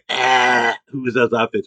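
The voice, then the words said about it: Joan Rivers impression. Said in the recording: “I quote Joan Rivers and be like”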